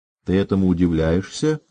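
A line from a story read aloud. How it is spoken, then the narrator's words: Plain. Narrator (Russian): сказала Мартина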